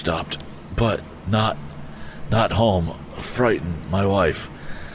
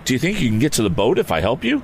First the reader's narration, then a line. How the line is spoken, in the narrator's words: asked Tom